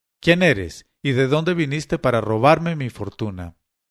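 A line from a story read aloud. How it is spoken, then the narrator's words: Furious exclamation. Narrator (Spanish): me arañó furioso y exclamó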